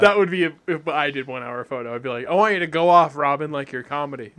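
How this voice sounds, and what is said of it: Usual voice. Nothing is said of it.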